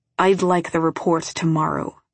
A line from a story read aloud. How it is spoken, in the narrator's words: he says